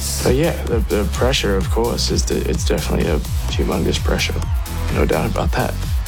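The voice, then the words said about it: Mixed Australian and US accent. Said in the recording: “slight US twang Australian mixed accent”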